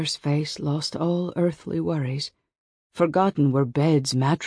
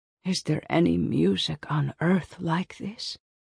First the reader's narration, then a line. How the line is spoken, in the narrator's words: Mother whispered to Mumenka